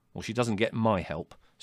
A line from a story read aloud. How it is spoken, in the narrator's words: said Larry firmly